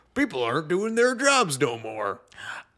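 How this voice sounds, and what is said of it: Angry Southern older man voice. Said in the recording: “That's my impression of a boomer, by the way. ... Why are all the boomers from the South?”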